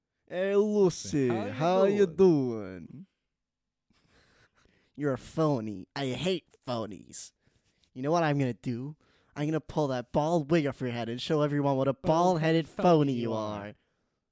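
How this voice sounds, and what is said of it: Gru character impression. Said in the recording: “You do a perfect Gru impression ... That was the impression I'm ending it with.”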